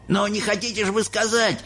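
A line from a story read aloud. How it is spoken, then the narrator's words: Old man shouting. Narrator (Russian): закричал дедушка Джо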